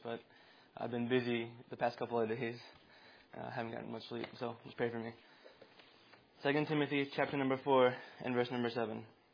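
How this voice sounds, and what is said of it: Tired, exhausted-sounding voice. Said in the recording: “I'm kind of exhausted. I don't know if you can hear it in my voice”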